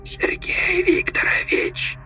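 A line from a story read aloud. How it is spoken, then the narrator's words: Thin, cutting whisper. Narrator (Russian): Шепот был тонким, почти неразличимым, но он резал, как стекло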